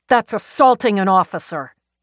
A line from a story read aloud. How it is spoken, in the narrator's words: Peabody snapped